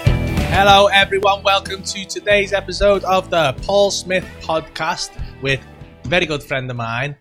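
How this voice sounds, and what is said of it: Formal put-on telephone voice. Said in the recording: “doing your phone voice ... you're on the phone to BT voice ... trying to cancel your Sky bill”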